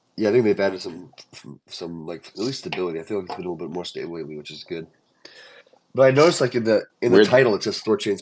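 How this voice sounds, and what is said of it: Sick, slightly off-sounding voice. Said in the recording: “my voice might sound a little off just because I've been sick lately ... if I sound weird”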